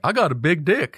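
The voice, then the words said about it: Goofy Carolina accent imitation. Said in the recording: “He had a goofy ass Carolina accent.”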